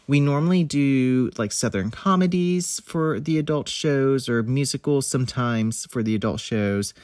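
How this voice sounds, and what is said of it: Congested, stuffy nasal voice. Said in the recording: “I sound a little congested, ... I can't breathe normally ... a little sinus infection”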